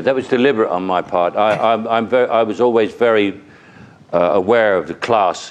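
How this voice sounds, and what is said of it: General London accent. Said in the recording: “This is just a general London accent. If I spoke Cockney, you wouldn't know what the hell I was talking about.”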